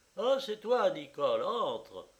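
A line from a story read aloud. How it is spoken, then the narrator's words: Exclaimed. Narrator (French): s'écria M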